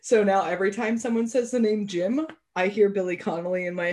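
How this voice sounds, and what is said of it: Usual voice. Nothing is said of it.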